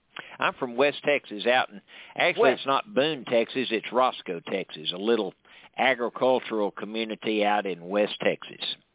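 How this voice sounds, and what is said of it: Deep Texas accent. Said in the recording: “Your accent is a deep Texas accent.”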